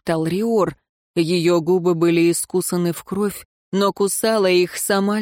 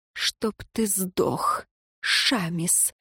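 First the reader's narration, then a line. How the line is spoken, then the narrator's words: Hoarse voice. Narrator (Russian): сипло произнесла узница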